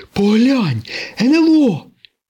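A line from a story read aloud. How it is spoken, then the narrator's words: Exclaim. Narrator (Ukrainian): вигукнув сирник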